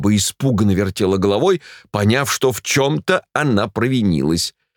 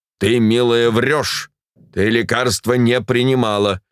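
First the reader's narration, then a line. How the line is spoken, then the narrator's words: Stern. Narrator (Russian): строго молвил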